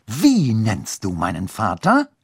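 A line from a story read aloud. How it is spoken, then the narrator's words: Hissing snap. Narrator (German): fauchte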